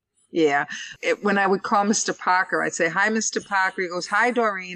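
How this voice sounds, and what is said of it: Boston accent. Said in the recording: “I can tell you're from Boston. ... You definitely have the Boston accent.”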